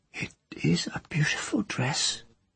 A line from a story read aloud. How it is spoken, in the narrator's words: she said in her faint, hoarse voice